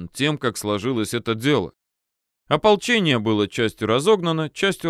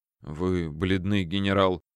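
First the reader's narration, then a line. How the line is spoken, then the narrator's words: Slightly flustered reply. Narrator (Russian): отвечал тот чуть растерянно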